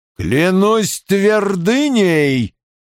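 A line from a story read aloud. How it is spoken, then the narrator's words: Roar. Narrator (Russian): взревел наконец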